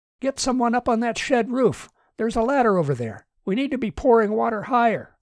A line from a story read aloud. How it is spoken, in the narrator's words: Martin shouted